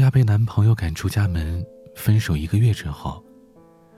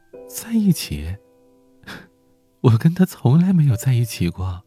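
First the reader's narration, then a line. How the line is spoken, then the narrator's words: Bitter smile. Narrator (Chinese): 小亚苦笑着说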